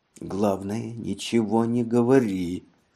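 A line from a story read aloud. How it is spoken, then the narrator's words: Whispered. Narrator (Russian): брат ... шепнул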